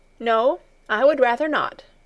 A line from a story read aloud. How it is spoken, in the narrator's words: replied Heidi firmly